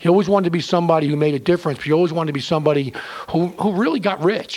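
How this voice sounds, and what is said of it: New York East Coast accent. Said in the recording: “has a very a very New York East Coast accent”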